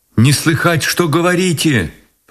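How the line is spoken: Shouted. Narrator (Russian): прокричала она

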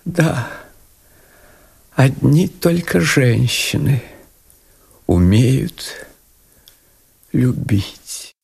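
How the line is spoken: Tearful sigh. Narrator (Russian): Маркиза, у которой на глазах были слезы, вздохнула

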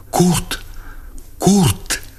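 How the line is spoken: Breathless cried whisper. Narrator (Russian): она вскрикнула задохнувшимся шепотом

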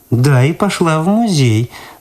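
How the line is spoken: Mocking repetition. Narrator (Russian): насмешливо повторила Люда

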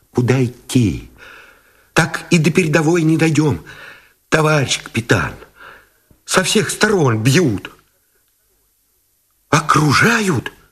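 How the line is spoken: Frightened breathless mumbling. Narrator (Russian): испуганно, сдерживая дыхание, забормотал

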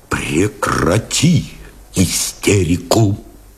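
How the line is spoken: Quiet command. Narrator (Russian): Тихо приказал Новиков

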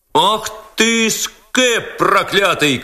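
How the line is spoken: Crowd shouting. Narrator (Russian): кричала толпа

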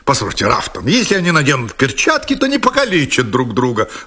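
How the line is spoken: Exclamation. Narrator (Russian): воскликнул лорд Сэндлер

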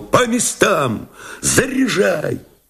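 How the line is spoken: Shout. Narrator (Russian): он крикнул

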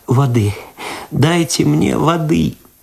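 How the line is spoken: Sobbing, moaning plea. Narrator (Russian): В голос зарыдала Люда, простонала

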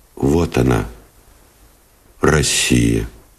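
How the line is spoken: Quiet and serious. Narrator (Russian): тихо и серьезно сказал Новиков

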